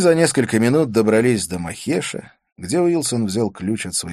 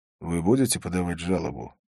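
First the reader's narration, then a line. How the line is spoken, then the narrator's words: Quiet question. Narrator (Russian): тихо спросил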